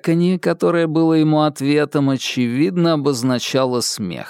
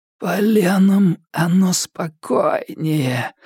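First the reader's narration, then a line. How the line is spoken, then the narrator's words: Creaky voice. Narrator (Russian): проскрипел он наконец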